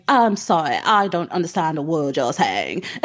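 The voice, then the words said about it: Posh English accent. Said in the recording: “this English accent, like hoity-toity ... posh English accents”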